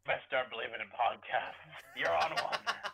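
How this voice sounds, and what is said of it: Impression of pirate captain Barbossa. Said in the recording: “Barbossa impersonation ... Oh, that was good.”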